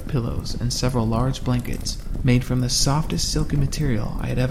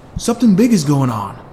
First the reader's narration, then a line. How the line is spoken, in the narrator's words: yelled Drew